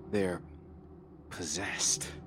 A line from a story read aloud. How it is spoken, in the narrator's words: I muttered